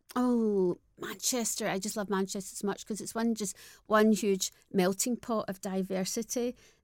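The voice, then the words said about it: Strong non-posh Scottish accent. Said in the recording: “I still have the strongest Scottish accent, but it's not posh.”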